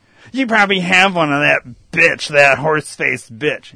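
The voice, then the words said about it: Imitates another person's voice. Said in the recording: “that's my impression of my wife”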